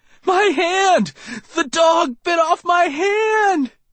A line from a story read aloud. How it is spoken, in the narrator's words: He was swinging the stump wildly and shrieking